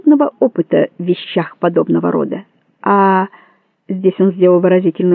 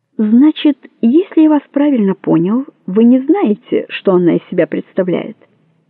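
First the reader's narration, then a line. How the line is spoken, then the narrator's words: Surprised, normal voice, not purring. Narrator (Russian): От удивления он даже заговорил обычным голосом, не мурлыкая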